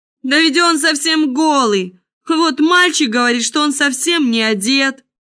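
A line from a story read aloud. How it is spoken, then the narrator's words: Crowd shouting. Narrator (Russian): закричал, наконец, весь народ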